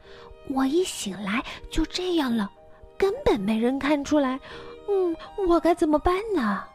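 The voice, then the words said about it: Speaking softly, hushed. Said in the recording (Chinese): “他小声说”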